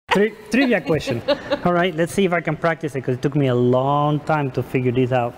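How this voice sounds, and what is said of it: Non-native English accent. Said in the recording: “my accent ... My English language, but you know I'm foreigners”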